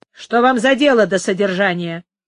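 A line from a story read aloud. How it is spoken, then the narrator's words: Rude, displeased question. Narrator (Russian): грубо спросил Пригонеро, которому разговор нотариуса не нравился столько же, сколько его посещение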